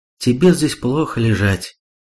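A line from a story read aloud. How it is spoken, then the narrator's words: Sighing. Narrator (Russian): вздохнула Сато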